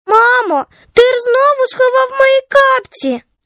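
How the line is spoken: Cheerful child's voice. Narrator (Ukrainian): Голос дитини лунав на диво весело, без образи

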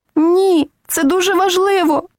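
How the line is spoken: Crying out. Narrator (Ukrainian): скрикнула вона

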